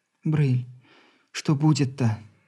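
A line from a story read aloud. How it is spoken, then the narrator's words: Quiet question. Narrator (Russian): тихо спросила жена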